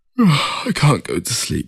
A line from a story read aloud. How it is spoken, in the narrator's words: he said through a yawn